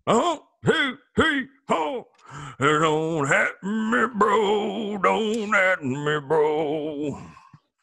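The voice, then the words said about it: Imitates another person's singing voice. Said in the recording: “I could do the Bruce Springsteen version.”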